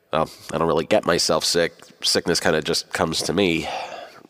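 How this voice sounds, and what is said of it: Sick-sounding voice. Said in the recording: “as you can tell by my voice, I've gotten myself sick again”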